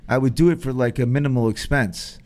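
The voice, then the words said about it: Put-on accent. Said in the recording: “How am I doing with the accent, by the way? I've been working on it all evening.”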